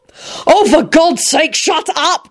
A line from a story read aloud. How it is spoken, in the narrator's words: Quentin shouted wildly